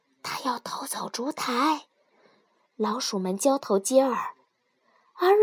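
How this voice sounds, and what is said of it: Usual voice. Nothing is said of it.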